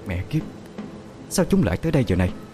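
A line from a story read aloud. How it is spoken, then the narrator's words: Pale, fearful muttering. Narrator (Vietnamese): Gương mặt ả tái đi vài phần, ả lẩm bẩm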